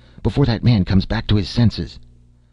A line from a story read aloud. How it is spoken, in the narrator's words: Joffrey panted